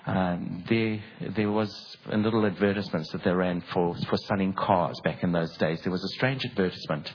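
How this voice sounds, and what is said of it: South African accent. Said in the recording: “I grew up in Durban in South Africa, and that's where the accent comes from”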